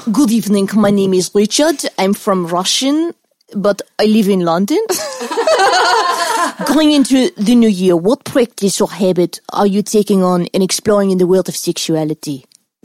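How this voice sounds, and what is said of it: Put-on Russian accent, somewhat South African. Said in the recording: “You want to hear ... as a Russian? ... That's kind of like South African, actually. Meets Russian.”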